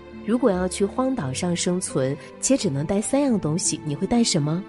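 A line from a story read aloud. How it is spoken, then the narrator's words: Plain. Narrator (Chinese): 董卿回答说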